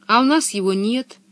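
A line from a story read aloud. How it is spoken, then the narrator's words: Sad sigh. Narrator (Russian): печально вздохнула Анника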